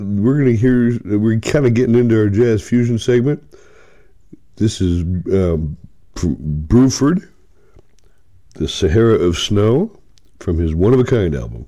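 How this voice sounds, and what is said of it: Rough, congested voice from cold. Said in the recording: “I got a cold, so my voice is a little bit rough”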